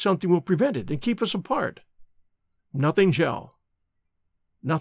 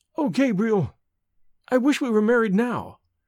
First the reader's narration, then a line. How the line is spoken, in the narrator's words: cried Evelyn in sudden distress